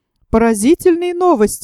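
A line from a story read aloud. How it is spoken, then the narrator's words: Exclaiming. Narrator (Russian): воскликнул Пойнт-Декстер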